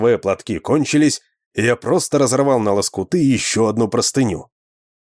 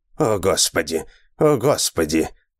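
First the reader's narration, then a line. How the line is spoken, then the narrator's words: Tired muttering. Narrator (Russian): устало бормотал он себе под нос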